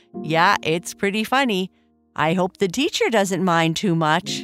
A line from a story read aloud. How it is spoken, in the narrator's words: Bernice laughed